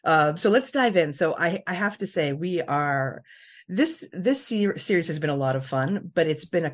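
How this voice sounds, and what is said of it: Usual voice. Nothing is said of it.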